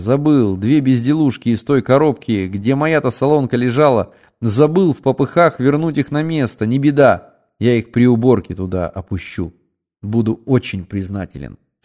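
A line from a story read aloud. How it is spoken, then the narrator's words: Plain. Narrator (Russian): сказал я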